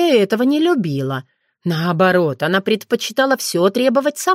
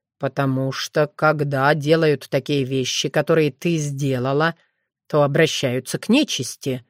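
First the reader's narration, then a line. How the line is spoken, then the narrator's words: Calm, indifferent. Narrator (Russian): абсолютно спокойно и равнодушно отозвался ее спутник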